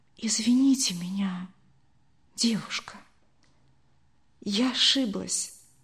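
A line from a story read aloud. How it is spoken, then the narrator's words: Quiet. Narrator (Russian): тихо сказала она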